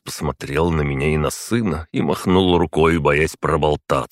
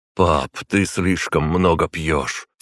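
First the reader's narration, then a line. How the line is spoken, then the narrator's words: Heavy sigh. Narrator (Russian): тяжело вздохнул Тагай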